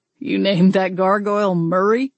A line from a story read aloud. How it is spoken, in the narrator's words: Alton chuckled